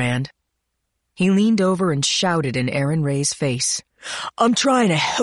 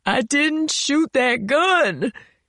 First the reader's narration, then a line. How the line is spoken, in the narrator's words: Aaron Ray sobbed